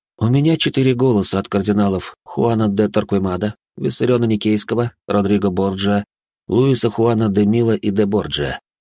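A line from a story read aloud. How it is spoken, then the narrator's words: Calm reply. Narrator (Russian): спокойно ответил я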